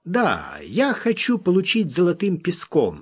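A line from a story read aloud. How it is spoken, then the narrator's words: Plain. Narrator (Russian): сказал Смок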